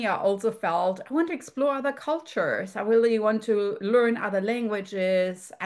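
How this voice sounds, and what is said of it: German accent. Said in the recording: “you can hear from my accent, born in Europe, particularly in Germany”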